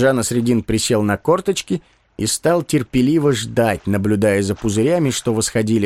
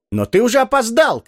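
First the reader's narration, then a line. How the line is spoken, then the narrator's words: Shouting crowd. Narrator (Russian): кричали из толпы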